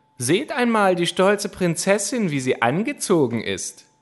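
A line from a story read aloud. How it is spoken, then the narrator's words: Mocking, laughing shouts. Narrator (German): riefen sie, lachten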